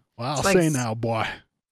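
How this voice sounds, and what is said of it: Exaggerated cartoonish fake Southern accent. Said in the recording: “I'm just doing Foghorn Leghorn now ... It is a really like shitty cheese dick cornball southern accent ... It's very bad ... Not natural at all.”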